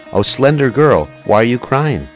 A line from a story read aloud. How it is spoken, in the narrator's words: Lalita says, approaching and in a choked voice